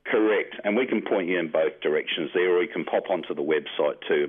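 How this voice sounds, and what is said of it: Slight Australian accent. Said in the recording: “do you have a bit of an Australian twang there that I'm detecting? ... Yes, I do.”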